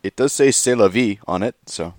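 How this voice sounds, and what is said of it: Put-on French accent. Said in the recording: “with a very strong French accent, please... Ah, not too bad. Well done.”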